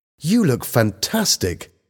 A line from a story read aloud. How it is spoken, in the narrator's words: Helen exclaimed